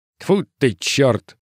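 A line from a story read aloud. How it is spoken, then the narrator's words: Muttering guard, then laughing. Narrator (Russian): Пробормотал охранник и рассмеялся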